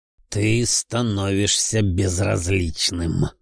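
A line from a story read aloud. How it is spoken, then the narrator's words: Sad drawl. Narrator (Russian): с печалью в голосе протянул Велиафон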